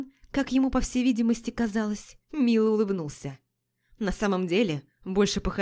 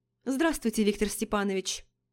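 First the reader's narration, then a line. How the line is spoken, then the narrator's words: Dry reply. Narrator (Russian): сухо ответила я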